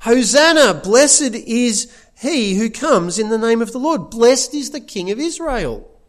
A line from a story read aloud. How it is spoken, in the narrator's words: they shout